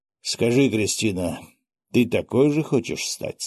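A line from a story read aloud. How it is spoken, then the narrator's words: Plain. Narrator (Russian): спросил он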